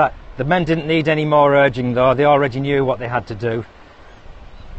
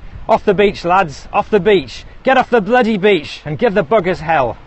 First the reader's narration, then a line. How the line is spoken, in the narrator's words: Captain Chambers was shouting